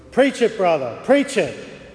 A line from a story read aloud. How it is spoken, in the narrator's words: One of the deacons yelled